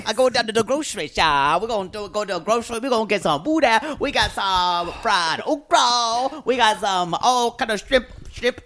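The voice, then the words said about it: Put-on Cajun accent. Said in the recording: “you have not done a Cajun accent”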